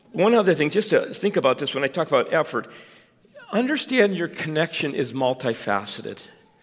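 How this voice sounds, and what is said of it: Strained, failing voice. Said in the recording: “you can hear my voice is going”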